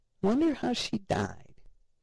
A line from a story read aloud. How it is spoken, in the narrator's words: faintly hear Ted ask